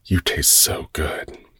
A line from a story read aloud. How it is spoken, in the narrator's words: said in a low, breathy voice